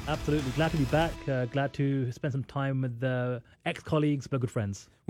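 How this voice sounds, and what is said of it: British accent. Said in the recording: “We need the British accent also. It raises the class quotient.”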